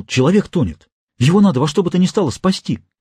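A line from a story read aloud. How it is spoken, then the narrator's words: Excited exclamation. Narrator (Russian): взволнованно воскликнул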